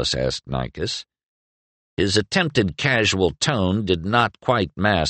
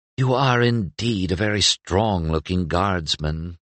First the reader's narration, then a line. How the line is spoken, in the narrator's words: Mira purred